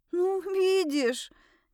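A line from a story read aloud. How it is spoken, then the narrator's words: Slightly trembling voice. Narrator (Russian): немного подрагивающим голосом обратилась я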